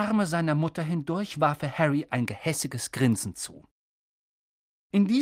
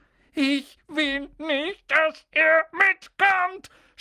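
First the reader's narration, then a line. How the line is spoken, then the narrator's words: Shouting with fake sobs. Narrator (German): schrie Dudley zwischen den markerschütternden falschen Schluchzern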